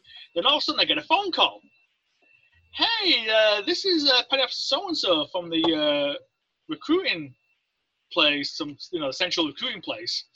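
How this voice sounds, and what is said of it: Speaks with an accent. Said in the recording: “they hear my accent”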